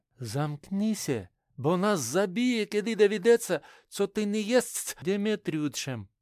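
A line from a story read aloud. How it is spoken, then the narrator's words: Whisper into ear. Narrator (Russian): Марина шептала прямо в ухо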